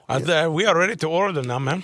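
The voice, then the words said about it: Put-on Mexican accent. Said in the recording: “That's when I go to a Mexican restaurant, I will use an accent.”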